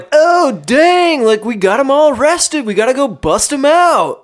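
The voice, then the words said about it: Impression of a movie character. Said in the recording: “That was a good impression.”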